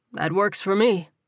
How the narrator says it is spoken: Terrell replied, chuckling

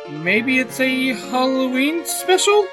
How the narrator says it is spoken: Klein chuckles

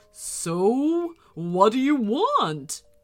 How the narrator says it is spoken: growled the winter dragon

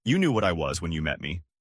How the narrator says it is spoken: she laughed and said

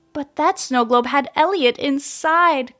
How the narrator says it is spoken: cried Tony, unable to stop the tears from falling down his face

